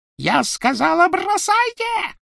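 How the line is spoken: Shrieked. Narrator (Russian): провизжала Белатриса

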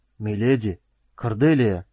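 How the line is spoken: Hoarse wheeze. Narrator (Russian): прохрипел он

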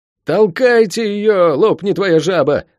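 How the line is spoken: Bellowed. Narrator (Russian): заорал Лук

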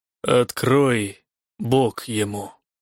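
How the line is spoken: Commanding through clenched teeth. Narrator (Russian): сквозь зубы приказал воевода

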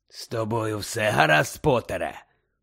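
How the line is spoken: Hoarse. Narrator (Ukrainian): прохрипів Муді

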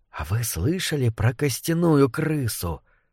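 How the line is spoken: Whispered. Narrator (Russian): прошептал кто-то

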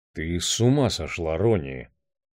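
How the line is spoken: Quiet. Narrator (Russian): тихо сказал Барни Майерсон

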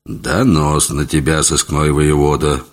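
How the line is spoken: Gruff mutter. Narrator (Russian): буркнул он

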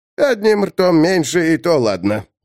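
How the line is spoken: Grumbled. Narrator (Russian): пробурчал Брешь-Властырь

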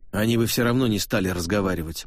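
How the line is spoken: Gruff mutter. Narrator (Russian): буркнул ловец

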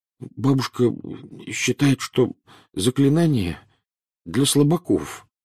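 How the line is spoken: Mumbling. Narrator (Russian): промямлил Невилл

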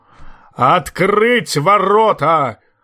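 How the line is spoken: Thunderous roar. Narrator (Russian): взревел громовым голосом Большой Лидль

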